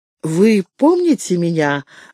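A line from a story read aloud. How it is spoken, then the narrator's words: Agitated question. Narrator (Russian): взволнованно спросил Фредерик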